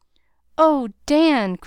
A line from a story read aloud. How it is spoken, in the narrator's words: cried Nat